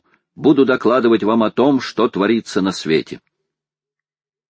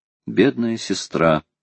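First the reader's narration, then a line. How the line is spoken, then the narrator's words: Sad. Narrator (Russian): грустно сказал Роберт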